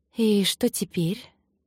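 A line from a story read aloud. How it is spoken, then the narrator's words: Breathy exhale. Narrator (Russian): выдохнула она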